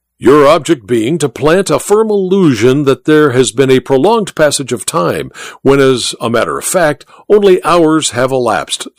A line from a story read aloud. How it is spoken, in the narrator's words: said the Duke